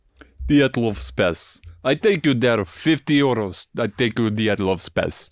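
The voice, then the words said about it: Imitated Russian accent. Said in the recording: “What accent is that? ... Russian. Russian. ... What do you think is Russian accent? I think pretty good.”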